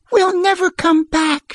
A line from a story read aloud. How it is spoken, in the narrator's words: she wailed